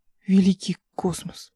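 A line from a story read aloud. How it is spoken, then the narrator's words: Whisper. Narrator (Russian): прошептал он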